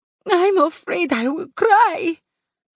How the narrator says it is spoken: Juana sobbed

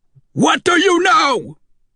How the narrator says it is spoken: I shouted

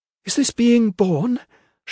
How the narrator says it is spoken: she sobbed

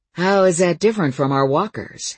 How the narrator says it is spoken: asked Coyote in an interested tone

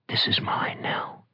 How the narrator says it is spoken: Bride whispered

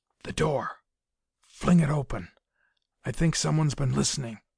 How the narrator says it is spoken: the colonel whispered

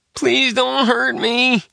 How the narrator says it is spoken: Nick Two sobbed

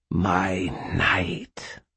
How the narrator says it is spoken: Mab hissed, the statement one of possession

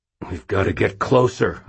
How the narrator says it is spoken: I growled

